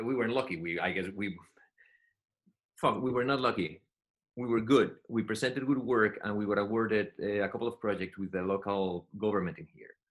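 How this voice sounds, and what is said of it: Thick Spanish accent. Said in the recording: “the guy with the thick Spanish accent”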